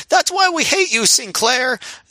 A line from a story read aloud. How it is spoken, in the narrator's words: one fan yell